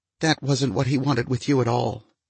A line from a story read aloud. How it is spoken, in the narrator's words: she said in a strained voice that still had shreds of anger clinging to it